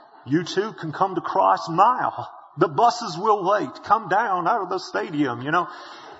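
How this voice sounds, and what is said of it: Billy Graham preacher voice impression. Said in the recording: “Billy Graham... Don't you love his accent? I wish I had a preacher's voice like that.”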